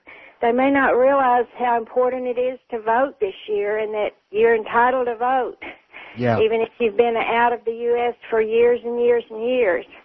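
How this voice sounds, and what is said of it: American accent, not Australian. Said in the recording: “Your accent certainly doesn't give me an indication that you're somewhere south of Melbourne or Brisbane”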